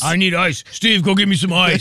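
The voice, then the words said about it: Imitates another person's voice. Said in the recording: “impression is spot on”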